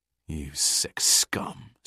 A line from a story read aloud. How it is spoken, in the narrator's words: spat Captain Birch